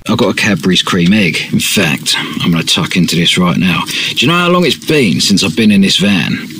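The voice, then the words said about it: British accent. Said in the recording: “we always like to hear a British accent”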